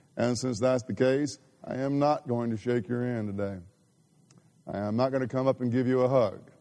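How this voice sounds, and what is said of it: Abnormal, congested sick voice. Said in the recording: “I did not have a voice at all ... You can probably tell my voice is not sound normal ... I still am struggling with sinus drainage”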